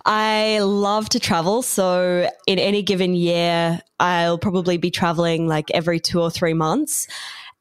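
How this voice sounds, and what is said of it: Australian accent. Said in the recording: “I'm based in beautiful Brisbane, Australia. So that's where the funny accent comes from”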